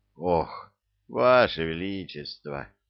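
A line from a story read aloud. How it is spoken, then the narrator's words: Heavy sigh. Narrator (Russian): тяжело вздохнул господин Ратехи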